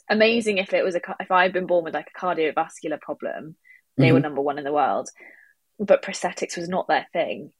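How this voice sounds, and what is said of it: Strong British accent. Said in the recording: “I sound like I have a really strong British accent”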